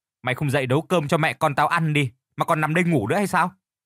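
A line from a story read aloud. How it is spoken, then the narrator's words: Loud angry shout. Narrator (Vietnamese): Xuân, con gái của Phương, quát lớn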